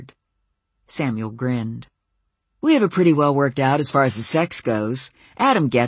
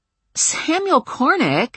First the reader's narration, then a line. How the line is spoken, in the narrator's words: I sputtered in disbelief